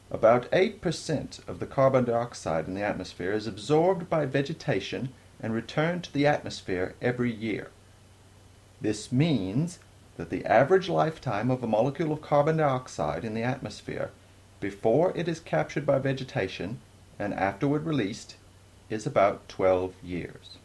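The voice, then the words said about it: Poor put-on British accent. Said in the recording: “I quote in my crappy British accent”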